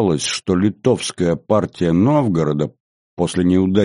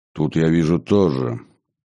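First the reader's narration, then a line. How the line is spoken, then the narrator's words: Gloomy archbishop. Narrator (Russian): мрачно заметил архиепископ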